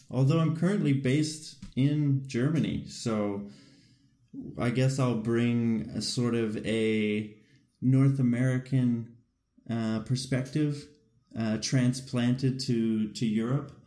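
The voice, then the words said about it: Canadian accent. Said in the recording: “As the accent may or may not give away, from Canada.”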